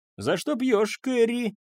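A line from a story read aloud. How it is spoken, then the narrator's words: Shouted into ear. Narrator (Russian): крикнула мне в ухо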